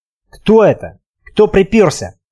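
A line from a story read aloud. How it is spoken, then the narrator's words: Hiss. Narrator (Russian): прошипел Сергей Сергеевич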